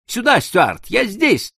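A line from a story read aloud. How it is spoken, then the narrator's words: Deafening frightened shout. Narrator (Russian): Я так испугался, что оглушительно крикнул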